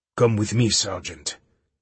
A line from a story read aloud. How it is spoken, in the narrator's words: the stranger grunted in guttural English